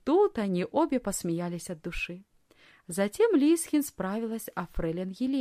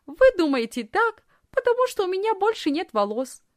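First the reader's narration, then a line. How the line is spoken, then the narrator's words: Laughing explanation. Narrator (Russian): смеясь, объяснила Лисхин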